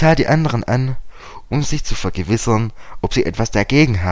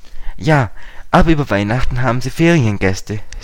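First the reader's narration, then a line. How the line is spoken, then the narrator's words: Plain. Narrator (German): sagte Dick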